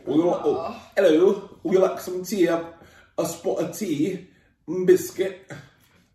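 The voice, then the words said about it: Put-on English accent. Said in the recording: “People in England say, would you like some tea? ... I'm doing an accent.”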